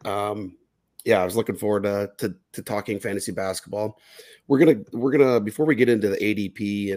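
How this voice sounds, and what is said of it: Voice rough from illness. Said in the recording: “I'm a little under the weather, so I apologize if my voice is all messed up”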